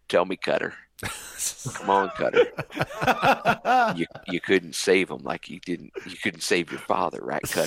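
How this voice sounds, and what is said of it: Imitates an actor's accent. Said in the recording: “I was going to cast Matthew McConaughey ... Doing the accent? ... Doing the accent. Well, maybe doing the accent.”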